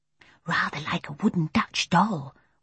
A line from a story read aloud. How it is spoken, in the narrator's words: whispered Jane